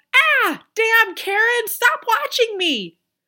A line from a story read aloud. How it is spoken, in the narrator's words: I would hear her yell